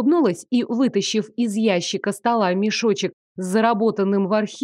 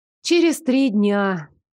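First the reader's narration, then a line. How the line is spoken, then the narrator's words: Heavy sigh. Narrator (Russian): тяжело вздохнув, произнесла я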